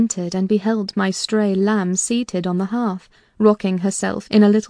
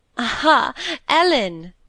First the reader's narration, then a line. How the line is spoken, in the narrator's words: she cried gaily